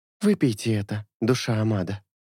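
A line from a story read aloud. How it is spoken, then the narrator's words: Whisper. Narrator (Russian): прошептала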